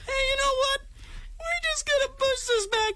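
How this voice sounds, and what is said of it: Mocking high-pitched voice. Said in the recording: “I'm using high voice again, so I should stop.”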